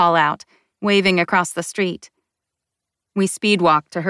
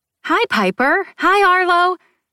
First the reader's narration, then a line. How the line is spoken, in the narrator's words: I say too eagerly